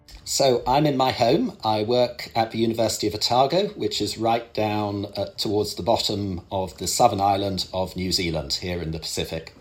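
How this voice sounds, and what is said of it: British accent. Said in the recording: “I can tell from your accent that you're a Brit.”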